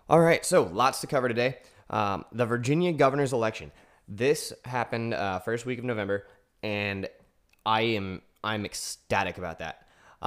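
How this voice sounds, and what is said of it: Voice still hoarse, recovering. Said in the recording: “I got hit with a pretty nasty cold ... My voice is still recovering a bit”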